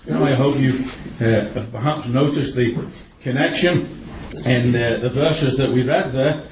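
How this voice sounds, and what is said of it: Speaker's own regional accent. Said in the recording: “With my accent, I can't really say the book of Luke very well, can I, with this little puddling accent”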